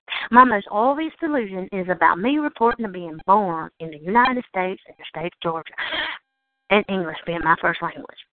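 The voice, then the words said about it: Southern US redneck accent. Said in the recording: “a redneck Southern accent”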